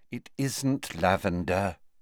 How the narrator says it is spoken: said Hermione wearily

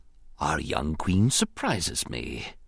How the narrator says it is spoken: he whispered thoughtfully

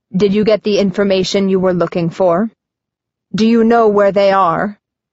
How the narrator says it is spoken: Cetricus Raw growls

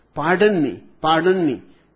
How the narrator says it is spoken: exclaimed the intruder

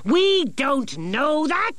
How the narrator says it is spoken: shouted Nicodemus

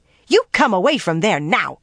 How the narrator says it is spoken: she snapped

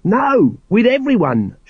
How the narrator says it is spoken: shouted, hopping from one foot to the other

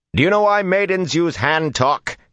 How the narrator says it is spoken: he shouted at the top of his leap

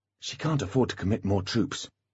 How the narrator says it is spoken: whispered Holly

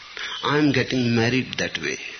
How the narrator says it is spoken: said the man

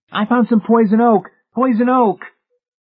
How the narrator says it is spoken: Racing around in a hysterical circle, David shouted

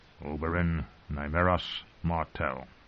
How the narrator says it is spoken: Tyrion muttered under his breath

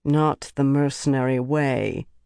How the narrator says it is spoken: Birgitta said dryly

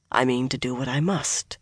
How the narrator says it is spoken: Swan said firmly, but just as softly

